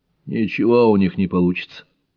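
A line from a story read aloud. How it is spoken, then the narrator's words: Gloomy. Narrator (Russian): мрачно добавил Рогу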